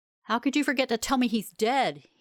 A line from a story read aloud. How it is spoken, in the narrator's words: shouted